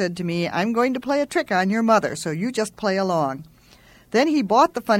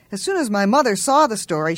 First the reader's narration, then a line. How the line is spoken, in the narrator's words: she gasped